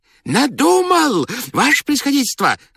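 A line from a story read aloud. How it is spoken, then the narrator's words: Joyful shout, strange voice. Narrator (Russian): закричал радостно, не своим голосом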